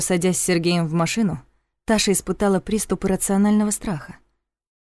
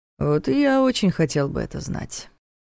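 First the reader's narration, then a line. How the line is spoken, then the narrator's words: Thoughtful drawl. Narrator (Russian): задумчиво протянул Дементьев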